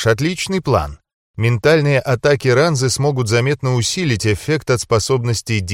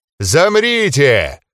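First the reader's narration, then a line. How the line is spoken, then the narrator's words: Roaring. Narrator (Russian): проревел узурпатор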